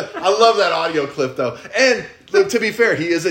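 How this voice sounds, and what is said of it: Usual voice. Nothing is said of it.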